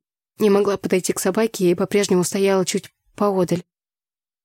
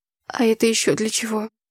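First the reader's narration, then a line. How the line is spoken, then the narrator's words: Hoarse question. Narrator (Russian): хрипло спросила я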